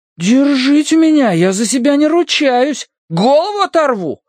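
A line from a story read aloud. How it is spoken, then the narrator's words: Fake roar. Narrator (Russian): Ненатурально взревел Словка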